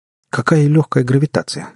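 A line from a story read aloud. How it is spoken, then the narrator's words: Exclaiming. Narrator (Russian): воскликнул он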